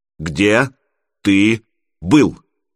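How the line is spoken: Clipped and curt. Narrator (Russian): отчеканил отец

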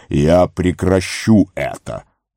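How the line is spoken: Booming. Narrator (Russian): прогремел он

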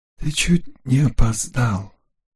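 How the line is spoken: Whisper. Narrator (Russian): прошептал он

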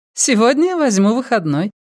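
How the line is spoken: Laughing. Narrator (Russian): засмеялась Ванита

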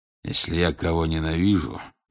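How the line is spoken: Mutter under breath. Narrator (Russian): пробормотал он себе под нос

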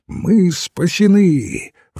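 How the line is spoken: Exclaiming. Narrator (Russian): воскликнул Мускари

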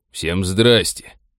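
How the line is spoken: Gloomy. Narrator (Russian): мрачно сказал он

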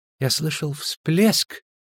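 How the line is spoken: Whisper. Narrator (Russian): шепнул он

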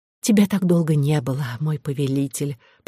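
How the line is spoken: Whisper. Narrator (Russian): прошептала невеста

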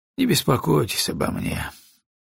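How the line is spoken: Gloomy. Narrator (Russian): мрачно сказал Броуди

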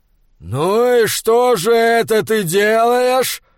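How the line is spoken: Growled close to ear. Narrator (Russian): прорычал Фриавару ему в ухо

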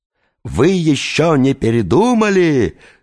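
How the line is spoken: Yelled. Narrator (Russian): завопил лицедей в черном плаще

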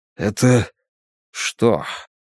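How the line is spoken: Hoarse question. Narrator (Russian): хрипло спросил Бен

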